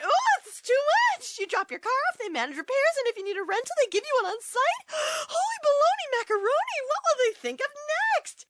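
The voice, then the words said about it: Overwhelmed, frantic character voice. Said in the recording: “my impression of an easily overwhelmed person”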